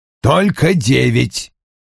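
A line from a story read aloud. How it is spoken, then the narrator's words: Irritated grumble. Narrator (Russian): с нескрываемым раздражением проворчал Вульф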